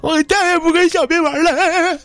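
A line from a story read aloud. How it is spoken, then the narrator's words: Tearful, wiping tears. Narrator (Chinese): 一边抹眼泪一边说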